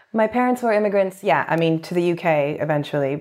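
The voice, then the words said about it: Canadian accent. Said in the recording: “I tend to say I'm Canadian because that's what people will immediately understand and acknowledge because of my accent.”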